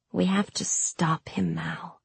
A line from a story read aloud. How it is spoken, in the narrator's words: I said hoarsely